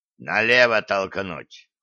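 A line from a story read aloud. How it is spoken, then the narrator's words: Growled. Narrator (Russian): рыкнул Гиви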